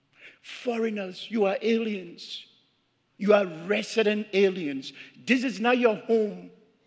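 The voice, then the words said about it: Speaks with a foreign accent. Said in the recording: “accent, just like me ... So you have an accent, and I'm saying, oh yeah, I do ... You have an accent”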